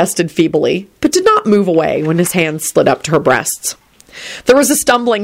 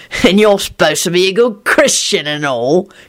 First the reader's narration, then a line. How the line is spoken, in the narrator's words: he sneered at Elizabeth